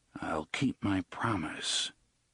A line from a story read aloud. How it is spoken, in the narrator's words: his lips didn't move as he murmured